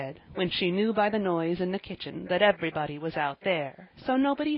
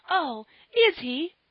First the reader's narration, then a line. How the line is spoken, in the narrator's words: cried Polly, in rapture